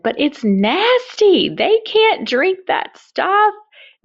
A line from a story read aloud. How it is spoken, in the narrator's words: very loudly he said